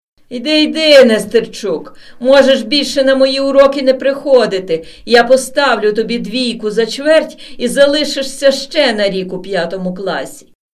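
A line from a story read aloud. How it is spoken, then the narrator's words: Defensive shout after someone. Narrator (Ukrainian): Аби якось реабілітувати себе, крикнув навздогін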